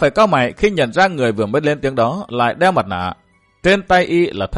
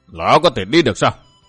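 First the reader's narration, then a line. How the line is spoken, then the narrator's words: Cold voice. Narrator (Vietnamese): Nghe giọng nói lạnh lùng đó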